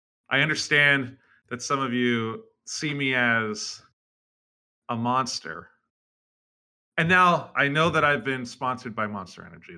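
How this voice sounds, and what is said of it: Deep, dulcet put-on voice. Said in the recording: “my deep voice... His deep, dulcet tones.”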